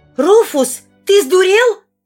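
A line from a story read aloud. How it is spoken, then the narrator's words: Shouted. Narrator (Russian): крикнула Сильвана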